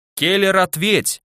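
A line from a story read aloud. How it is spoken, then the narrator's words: Yelling. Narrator (Russian): заорал я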